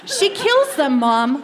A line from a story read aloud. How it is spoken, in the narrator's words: I yelled